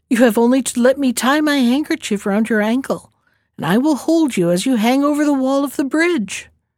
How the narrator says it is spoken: laughed the princess

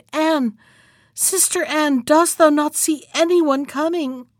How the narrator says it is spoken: she cried

